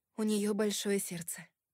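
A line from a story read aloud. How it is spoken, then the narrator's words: Plain. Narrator (Russian): сказала я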